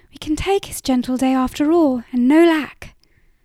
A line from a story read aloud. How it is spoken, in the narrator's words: smiled triumphantly